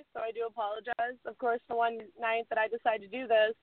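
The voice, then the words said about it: Hoarse, fading voice. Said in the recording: “I'm kind of losing my voice ... I don't have a voice ... post-con voice”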